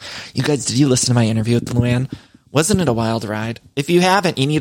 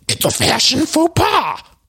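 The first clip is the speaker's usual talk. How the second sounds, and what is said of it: Imitates another person's voice. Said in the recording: “my Luann impression”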